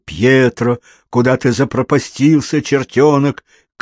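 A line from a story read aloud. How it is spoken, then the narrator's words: Shouting from outside. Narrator (Russian): крикнул с улицы Мариано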